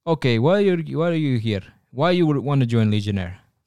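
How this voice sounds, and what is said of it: Put-on Russian accent. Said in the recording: “I don't even know why I'm giving a Russian accent.”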